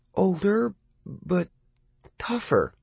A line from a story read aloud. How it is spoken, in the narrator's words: Lee said hesitantly